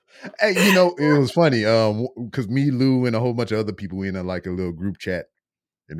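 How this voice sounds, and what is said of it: Usual voice. Nothing is said of it.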